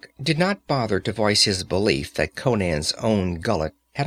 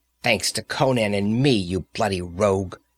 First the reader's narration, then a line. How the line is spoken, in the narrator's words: sneered Valeria, trembling with fury and shame of physical coercion